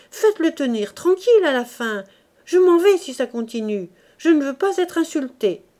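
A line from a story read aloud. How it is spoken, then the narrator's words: Shouting. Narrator (French): cria Clémence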